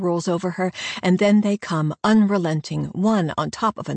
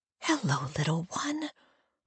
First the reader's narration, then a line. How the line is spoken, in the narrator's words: I whisper